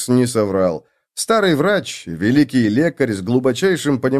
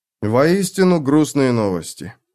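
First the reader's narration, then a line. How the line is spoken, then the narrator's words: Sighing. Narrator (Russian): вздохнул Феликс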